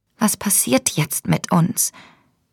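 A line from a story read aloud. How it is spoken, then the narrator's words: Whisper. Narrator (German): flüsterte sie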